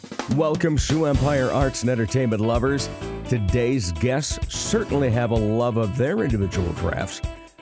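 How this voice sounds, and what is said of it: Raspy voice. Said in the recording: “As you can tell, a bit of a raspy voice ... before the raspy voice came along ... the parts that I have to speak in a less than ideal way”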